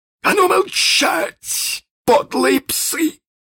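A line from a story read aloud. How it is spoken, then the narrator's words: Shouted. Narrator (Russian): крикнул он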